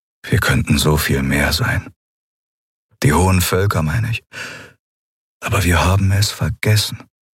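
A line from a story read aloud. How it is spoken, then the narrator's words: Sad. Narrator (German): Er klang traurig, als er sagte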